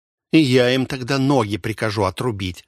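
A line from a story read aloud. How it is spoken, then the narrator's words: Spiteful joke. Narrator (Russian): зло пошутила Эрна, хозяйка портшеза и носильщиков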